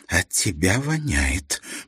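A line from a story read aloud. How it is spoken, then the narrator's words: Hiss. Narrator (Russian): прошипела она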